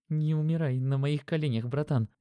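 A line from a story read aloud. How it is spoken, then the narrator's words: Horrified trembling whisper. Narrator (Russian): Димон с ужасом, его руки дрожали, а губы шептали что-то вроде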